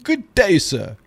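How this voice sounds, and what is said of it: Put-on English accent. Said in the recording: “why does everything fantasy have an English accent?”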